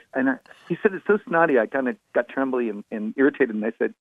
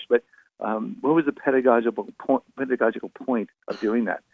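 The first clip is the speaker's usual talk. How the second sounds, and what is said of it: Bad put-on British accent. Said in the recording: “I adopted some bad British accent, but he's actually not that British”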